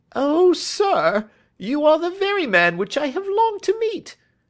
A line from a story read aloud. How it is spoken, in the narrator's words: cried the little fellow